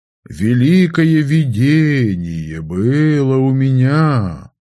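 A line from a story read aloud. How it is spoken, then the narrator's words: Mournful singsong. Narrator (Russian): Заунывно напевным голосом начал я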